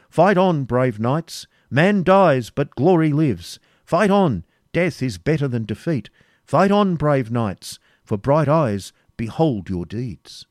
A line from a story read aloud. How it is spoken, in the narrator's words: the voice of the heralds, exclaiming